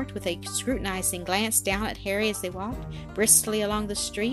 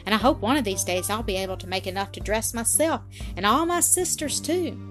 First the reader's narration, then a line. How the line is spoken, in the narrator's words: he added cheerfully